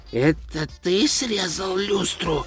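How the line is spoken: Hissing whisper. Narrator (Russian): свистящим шепотом осведомился он

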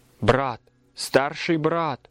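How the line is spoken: Exclamation. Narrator (Russian): воскликнула

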